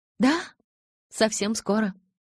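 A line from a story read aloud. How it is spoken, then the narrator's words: Joyful confirmation. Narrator (Russian): радостно подтвердила Элис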